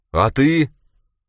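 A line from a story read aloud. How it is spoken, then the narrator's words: Shouted. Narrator (Russian): Она крикнула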